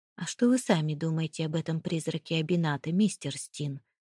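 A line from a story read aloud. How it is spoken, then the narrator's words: Low-voiced question. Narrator (Russian): вполголоса спросил японец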